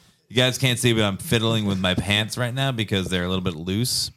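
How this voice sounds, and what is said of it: Usual voice. Nothing is said of it.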